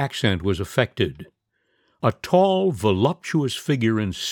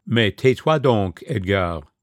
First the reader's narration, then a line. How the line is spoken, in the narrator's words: a woman's voice saying in a slightly vexed tone